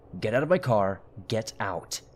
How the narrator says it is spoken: firmly said, and angrily

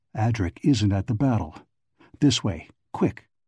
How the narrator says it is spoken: He said in a low, concentrated voice

